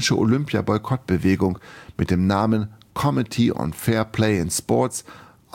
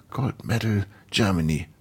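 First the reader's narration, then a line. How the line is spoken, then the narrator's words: Hiss. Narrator (German): zischte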